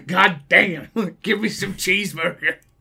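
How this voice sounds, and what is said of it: Put-on American cowboy accent. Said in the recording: “Is that your American accent? ... Cowboy?”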